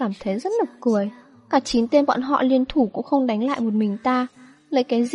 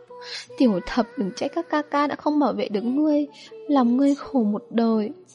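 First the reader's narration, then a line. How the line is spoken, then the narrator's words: Choked sobbing. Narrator (Vietnamese): Hắn nghẹn ngào khóc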